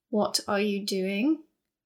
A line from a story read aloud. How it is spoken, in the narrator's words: Ozrin asked calmly